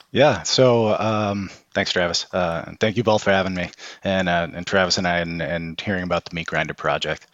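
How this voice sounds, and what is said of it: Boston accent. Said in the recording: “I'm originally from Boston, in case you can't tell from the accent.”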